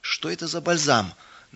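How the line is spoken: Deliberately rude, distrustful question. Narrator (Russian): Нарочито, грубо спросил мельник, недоверчиво

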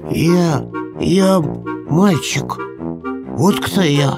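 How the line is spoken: Stammering timid babble. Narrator (Russian): заикаясь, пролепетала чумазая лохматая

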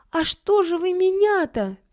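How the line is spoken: Squeaking, stuck and struggling. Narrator (Russian): пищала Стеша, завязшая под плетнем

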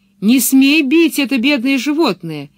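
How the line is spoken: Shouting. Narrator (Russian): крикнула она Блумстерлунду

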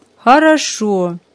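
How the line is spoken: Joyful agreement. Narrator (Russian): как-то радостно согласился отец

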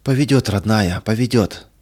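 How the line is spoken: Breathless faltering mother. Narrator (Russian): выдохнула мать и, как бы запнувшись

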